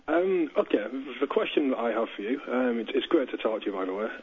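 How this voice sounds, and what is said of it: Cumbrian English accent. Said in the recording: “the Cumbrian accent”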